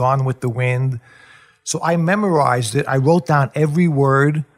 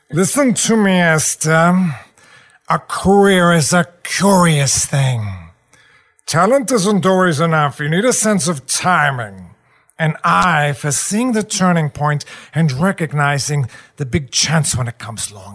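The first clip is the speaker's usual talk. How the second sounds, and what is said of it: Imitates another person's voice. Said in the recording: “I came up with my impression of James Mason ... getting that tone in your head”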